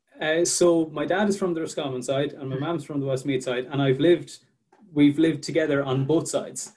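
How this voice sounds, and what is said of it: Irish Midlands accent. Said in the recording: “I could hear the Midlands coming out in your accent there”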